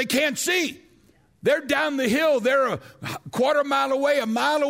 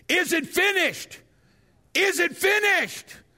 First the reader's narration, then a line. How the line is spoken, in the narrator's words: they then would begin to shout behind